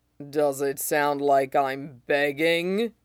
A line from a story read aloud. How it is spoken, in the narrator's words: Zoro growls